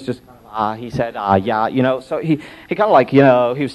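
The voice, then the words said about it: Mumbling teenage preacher voice. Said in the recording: “modern day teenage preacher impersonation”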